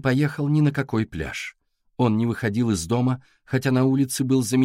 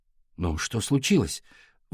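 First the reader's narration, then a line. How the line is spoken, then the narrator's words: Breathless. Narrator (Russian): выдохнул Валя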